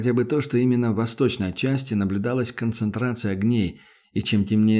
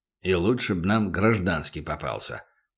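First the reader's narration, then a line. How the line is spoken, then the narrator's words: Grumbled. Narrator (Russian): проворчал Батон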